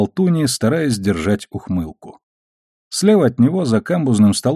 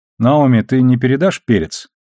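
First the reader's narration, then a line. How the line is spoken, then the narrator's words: Neutral, businesslike request. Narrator (Russian): Самым нейтральным деловым тоном он попросил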